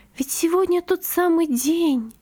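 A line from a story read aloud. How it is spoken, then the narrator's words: Whisper. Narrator (Russian): прошептала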